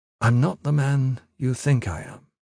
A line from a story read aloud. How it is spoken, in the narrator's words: he said very quietly